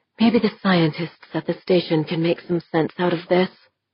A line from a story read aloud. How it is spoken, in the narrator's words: she murmured